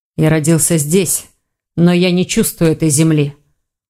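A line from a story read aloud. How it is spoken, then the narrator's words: Tired reply. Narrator (Russian): устало ответил Броган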